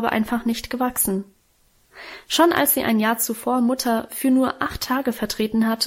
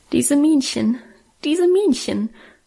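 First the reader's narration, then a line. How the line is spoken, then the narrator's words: Stifled sobbing, blaming. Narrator (German): schluchzte ich unterdrückt, als ob Minchen an unserem Unglück schuld gewesen wäre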